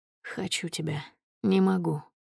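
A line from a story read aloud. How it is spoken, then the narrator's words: Husky whisper. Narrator (Russian): шепчу хрипловато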